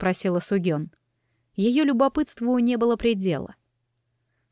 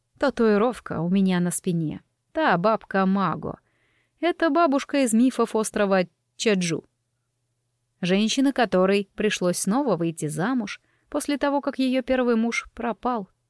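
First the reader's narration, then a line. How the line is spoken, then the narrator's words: Calm. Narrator (Russian): спокойно начала Ёнджу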